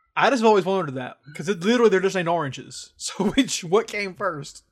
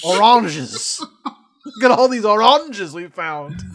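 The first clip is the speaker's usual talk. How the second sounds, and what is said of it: Unidentified put-on accent. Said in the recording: “I don't know what accent I'm doing”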